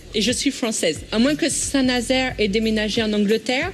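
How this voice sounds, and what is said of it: Slight English accent in French. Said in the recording (French): “Vous êtes anglaise, non? ... ce petit accent anglais”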